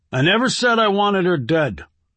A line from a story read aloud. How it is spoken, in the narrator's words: snapped Tucker